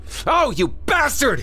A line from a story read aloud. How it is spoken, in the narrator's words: Craig screamed